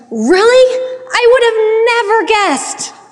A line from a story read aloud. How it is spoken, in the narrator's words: exclaimed